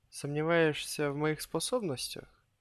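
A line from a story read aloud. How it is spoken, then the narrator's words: Boy, lazy indifferent voice. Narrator (Russian): безразлично ленивым голосом спросил мальчишка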